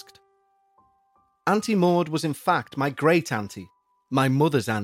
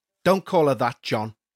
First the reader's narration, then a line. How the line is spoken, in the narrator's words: snapped my mum